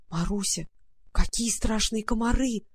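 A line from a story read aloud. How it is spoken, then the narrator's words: Terrified whisper. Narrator (Russian): прошептала Варя в ужасе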